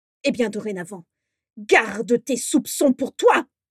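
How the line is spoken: Roaring. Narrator (French): rugit Abraxas

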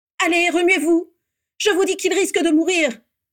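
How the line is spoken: Shout. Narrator (French): cria la voix de Bellatrix

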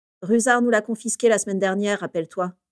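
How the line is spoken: Plain. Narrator (French): dit Sirius

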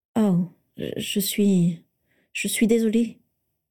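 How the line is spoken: Stammered. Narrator (French): bafouilla-t-elle

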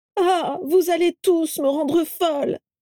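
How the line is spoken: Exclaimed. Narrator (French): s'écria Carla en faisant mine de tomber dans les pommes

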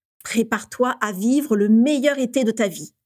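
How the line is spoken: Plain. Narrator (French): lui dit-il

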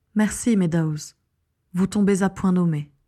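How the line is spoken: Sighing. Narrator (French): soupira Eleanor Wimbley

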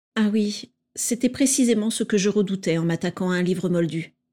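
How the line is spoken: Plain. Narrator (French): dit Andromeda

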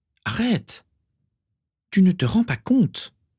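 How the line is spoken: Exclaiming. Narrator (French): s'exclama Bellatrix

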